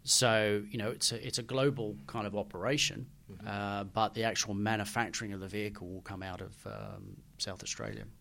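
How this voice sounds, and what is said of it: Noticeably strong Australian accent. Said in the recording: “you've been to Australia quite a lot lately, I can tell, because your accent is stronger.”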